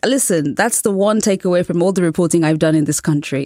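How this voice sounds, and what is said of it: Charming British accent. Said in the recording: “I have a British accent, which is pleasing to many American ears ... a charming British accent”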